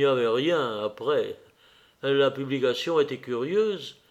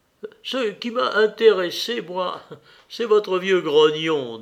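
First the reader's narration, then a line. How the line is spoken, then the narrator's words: Sighing. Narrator (French): dit Lévin en soupirant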